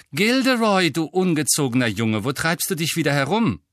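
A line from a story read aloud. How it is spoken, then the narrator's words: Voice calling out. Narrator (German): eine Stimme rief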